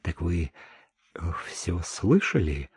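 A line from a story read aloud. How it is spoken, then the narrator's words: Quiet question. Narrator (Russian): тихо спросила Чико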